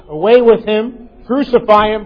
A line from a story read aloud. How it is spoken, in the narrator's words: they cried out